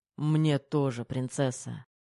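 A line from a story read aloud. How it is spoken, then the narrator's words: Sighing. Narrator (Russian): вздохнул Терех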